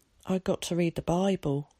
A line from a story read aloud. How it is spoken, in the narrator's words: he said miserably